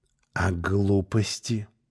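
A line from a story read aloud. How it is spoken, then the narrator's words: Whispered question. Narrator (Russian): шепотом спросил Белоголовый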